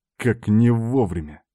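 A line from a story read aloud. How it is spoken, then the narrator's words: Growling. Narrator (Russian): прорычал я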